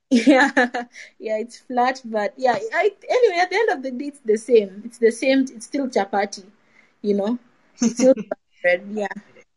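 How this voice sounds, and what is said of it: Speaks with a distinct accent. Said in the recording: “it's actually very different to hear you say chapati in your accent. It's something that is totally different”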